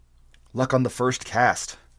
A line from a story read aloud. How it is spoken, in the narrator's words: murmured Taurus